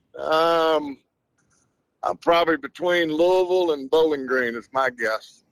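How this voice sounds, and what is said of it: Strong Southern twang. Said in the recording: “you already got the extra southern twang going on”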